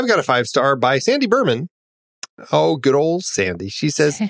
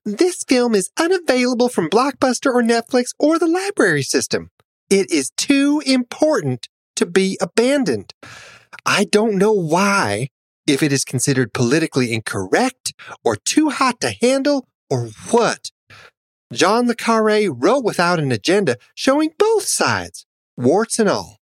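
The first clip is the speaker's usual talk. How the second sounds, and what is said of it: Imitates another person's voice. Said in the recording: “to do my Sandy voice,”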